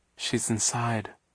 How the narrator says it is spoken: Violet murmured

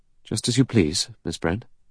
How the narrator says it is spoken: He said stiffly

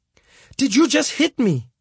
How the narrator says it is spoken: started shouting at him

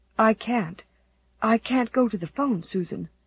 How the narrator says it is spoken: said Anne in a whisper

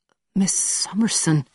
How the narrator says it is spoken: said quietly

